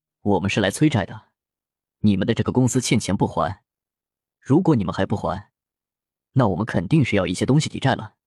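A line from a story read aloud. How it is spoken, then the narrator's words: Deep, grave voice. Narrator (Chinese): 林峰沉声说道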